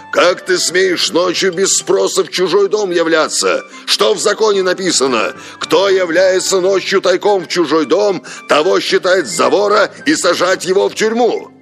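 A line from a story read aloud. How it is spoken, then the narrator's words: Frightened shout. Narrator (Russian): Проснулся Апуо, вскочил, увидев совесть, и закричал с перепугу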